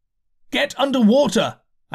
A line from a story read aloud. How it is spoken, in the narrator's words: I shouted, unheeded